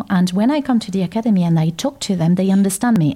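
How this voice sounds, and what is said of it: French accent. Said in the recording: “my beautiful French accent”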